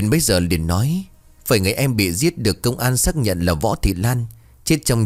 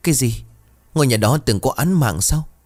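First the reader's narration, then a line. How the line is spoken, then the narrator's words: Frightened, trembling. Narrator (Vietnamese): Huyền run rẩy vì sợ hãi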